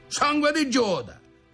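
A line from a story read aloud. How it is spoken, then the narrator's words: Feigned angry exclamation. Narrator (Italian): esclamò Piedipapera fingeva di mettersi in collera davvero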